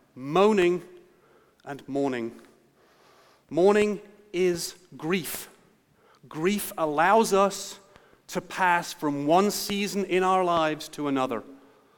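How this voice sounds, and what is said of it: Strong Kentucky accent. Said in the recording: “my strong Kentucky accent”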